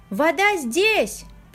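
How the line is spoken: Shouting. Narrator (Russian): прокричал Эладар

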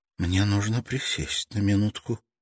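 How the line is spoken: Barely audible. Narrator (Russian): чуть слышно проговорила девушка

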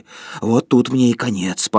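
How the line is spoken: Wheezing. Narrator (Russian): просипел

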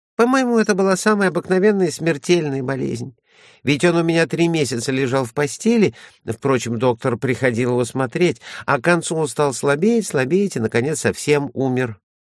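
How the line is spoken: Rapid chatter. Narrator (Russian): тараторила Кайса

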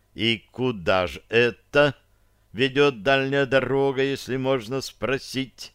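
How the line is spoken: Slow question. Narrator (Russian): медленно спросил августинец

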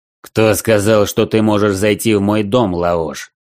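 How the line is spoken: Menacing. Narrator (Russian): Грозно нахмурился Дрой

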